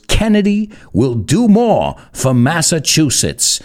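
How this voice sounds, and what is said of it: John F. Kennedy accent impression. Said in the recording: “I'm always going to try and do it in his accent.”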